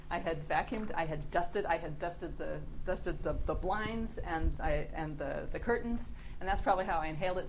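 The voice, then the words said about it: Californian American accent. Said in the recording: “California ... I have a foreign accent.”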